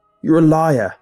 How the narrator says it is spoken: shouted

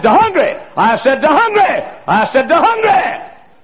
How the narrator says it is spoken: read a verse and hollered, and read a verse and hollered, and read a verse and hollered

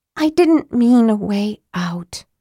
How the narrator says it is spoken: said Tika, sighing

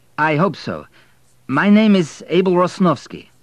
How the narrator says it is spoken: began Abel nervously

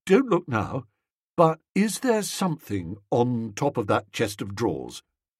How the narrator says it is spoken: said, lowering his voice

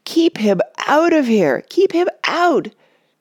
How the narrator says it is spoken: cried Mona frantically, holding her nose

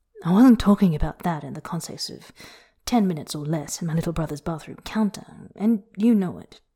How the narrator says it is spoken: he says dryly

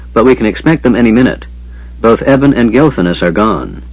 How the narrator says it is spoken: Sturm said harshly

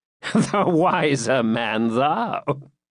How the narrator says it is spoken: said John with a peal of laughter

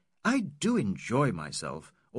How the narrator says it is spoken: we continue to exclaim

